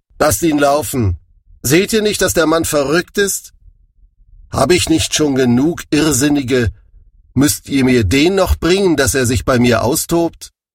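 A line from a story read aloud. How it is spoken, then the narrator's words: King calling. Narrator (German): ihr König Achis rief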